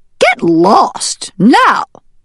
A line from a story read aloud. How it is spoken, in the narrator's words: snapped the duck